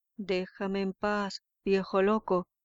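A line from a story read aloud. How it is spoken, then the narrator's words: Exclaimed. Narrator (Spanish): exclamó Teobaldo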